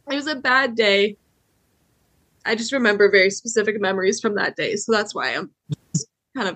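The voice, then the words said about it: Tearful, choked-up voice. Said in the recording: “I didn't know I was going to cry ... getting choked up.”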